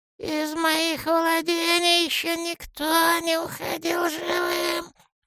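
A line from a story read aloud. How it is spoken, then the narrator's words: Near hiss. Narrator (Russian): Чуть ли не прошипел он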